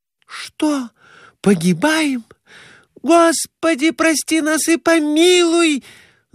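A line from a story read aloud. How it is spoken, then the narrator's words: Wailing in panic. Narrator (Russian): Завопила Глафира Семеновна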